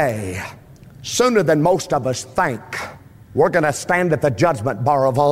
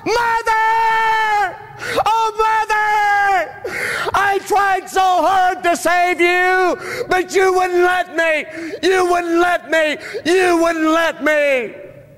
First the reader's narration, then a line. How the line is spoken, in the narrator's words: he would just get emotional and lose control of his emotions and just scream it out